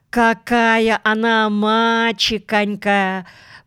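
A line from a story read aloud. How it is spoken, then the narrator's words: Drawn-out, pitying. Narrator (Russian): протянула она жалостно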